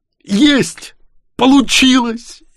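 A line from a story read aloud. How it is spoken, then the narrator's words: Joyful yell. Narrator (Russian): Я заорал от радости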